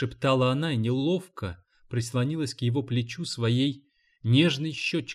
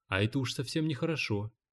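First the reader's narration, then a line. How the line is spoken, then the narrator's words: Quiet. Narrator (Russian): тихо сказал он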